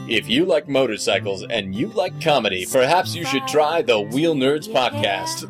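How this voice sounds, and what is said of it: Exaggerated announcer voice. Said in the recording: “doing my announcer voice.”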